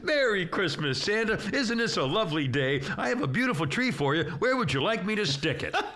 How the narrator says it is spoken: The angel says very cheerfully

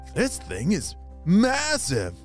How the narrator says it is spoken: he exclaimed

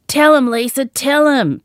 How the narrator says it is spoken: Pam yelled in glee

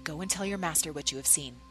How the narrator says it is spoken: whispered into the servant's ear

